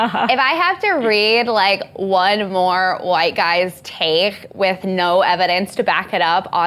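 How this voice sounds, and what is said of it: Usual voice. Nothing is said of it.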